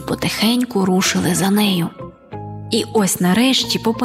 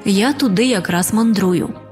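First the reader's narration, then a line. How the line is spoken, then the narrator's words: Calm reply. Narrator (Ukrainian): Риба-крапля спокійно відповіла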